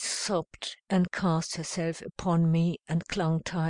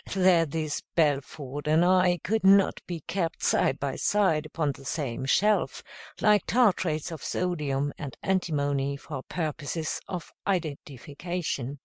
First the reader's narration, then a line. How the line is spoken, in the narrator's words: went on with an amused laugh